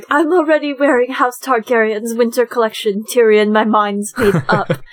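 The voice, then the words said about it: Bad put-on British accent. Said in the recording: “That's my really bad British accent.”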